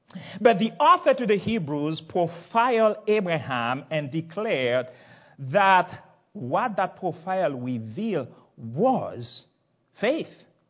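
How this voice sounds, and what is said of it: Speaks with a foreign accent. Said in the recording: “even my accent was not sufficient to qualify me as a terrorist.”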